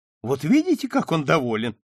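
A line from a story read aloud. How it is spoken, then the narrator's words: Exclaimed. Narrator (Russian): воскликнула Ангелина Семеновна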